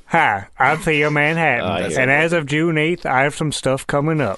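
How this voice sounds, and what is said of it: Impression of comedian Theo Manhattan. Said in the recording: “could do an impression of Theo. He's a comedian out here. ... Maybe you could do an impression of him doing his plugs.”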